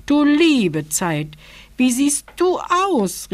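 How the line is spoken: Called out. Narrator (German): rief die Elemutter

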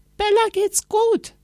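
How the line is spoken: Calling downstairs. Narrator (German): rief Anna nach unten

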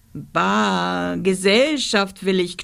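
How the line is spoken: Monster growling. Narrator (German): knurrte das Monster

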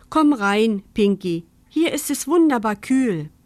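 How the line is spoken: Mother calling out. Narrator (German): Mama rief

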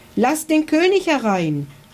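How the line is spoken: Called out. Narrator (German): rief Ritter Kunibert

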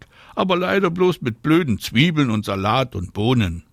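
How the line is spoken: Calling back. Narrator (German): ruft Anna zurück

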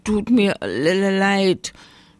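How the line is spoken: Little bear stammering. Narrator (German): stammelte der kleine Bär

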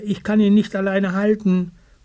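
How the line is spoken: Calling out. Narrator (German): ruft Eddie Bär

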